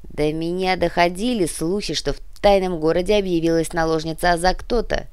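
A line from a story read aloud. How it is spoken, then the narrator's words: Growl. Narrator (Russian): прорычал Джо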